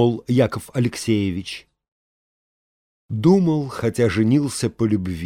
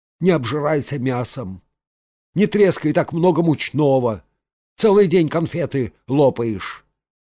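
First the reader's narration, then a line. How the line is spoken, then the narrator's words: Grumbling. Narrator (Russian): Саранин ворчал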